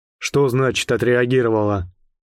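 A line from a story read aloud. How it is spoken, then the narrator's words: Calm question, keen interest. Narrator (Russian): спросил он своим спокойным голосом, в котором, однако, чувствовался острый интерес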